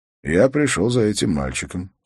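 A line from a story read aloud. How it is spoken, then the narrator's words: Calm. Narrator (Russian): спокойно сказал он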